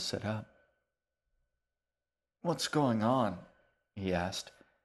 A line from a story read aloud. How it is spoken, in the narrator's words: He asked, his voice thick and muddled as though he'd been asleep